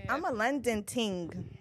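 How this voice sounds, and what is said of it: Bad put-on London accent, slightly Caribbean. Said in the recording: “I put on my accents. ... No, that was bad. Okay. That had a little bit of Caribbean in it.”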